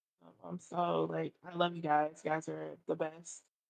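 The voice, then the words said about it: Soft, low sultry bedroom voice. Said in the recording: “came and put on her bedroom voice ... I'm sexy all the time ... at first she was like really loud and then she came in”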